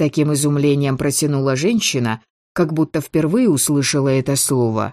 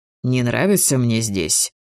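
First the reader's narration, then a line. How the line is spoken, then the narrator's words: Muttering under breath. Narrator (Russian): пробормотал себе под нос Шейн, никому в сущности не обращаясь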